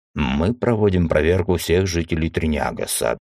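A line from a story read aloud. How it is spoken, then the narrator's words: Dry guard's voice. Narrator (Russian): сухо сказал стражник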